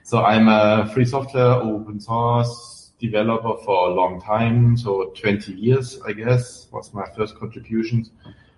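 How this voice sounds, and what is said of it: German accent. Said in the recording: “I'm German, as you can hear from my accent”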